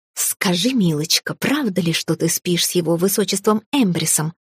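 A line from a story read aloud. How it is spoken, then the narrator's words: Hissing. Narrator (Russian): прошипела рыжая орлица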